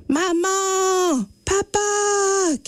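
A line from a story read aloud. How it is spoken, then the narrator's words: Unanswered shout. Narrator (French): crie Élie sans succès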